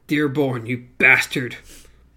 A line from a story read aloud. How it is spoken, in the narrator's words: Renfrew spat